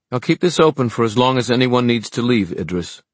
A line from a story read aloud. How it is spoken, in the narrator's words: she said, her voice firm and clear